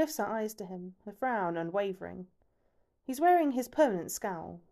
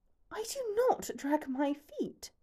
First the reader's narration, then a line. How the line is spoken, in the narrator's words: hisses